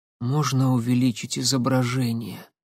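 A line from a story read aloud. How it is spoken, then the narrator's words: Suddenly hoarse request. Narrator (Russian): Внезапно осипшим голосом попросила Татьяна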